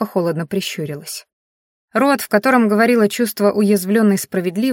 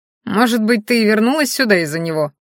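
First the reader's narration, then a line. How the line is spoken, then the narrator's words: Scoffing young man. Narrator (Russian): хмыкнул парень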